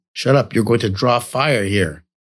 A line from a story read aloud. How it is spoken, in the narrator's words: Cardinale snapped very quickly